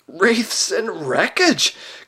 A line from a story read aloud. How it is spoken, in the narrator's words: gasped Trumpkin in the ghost of a voice